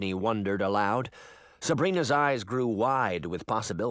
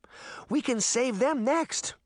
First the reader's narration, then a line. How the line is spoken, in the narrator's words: her sister said happily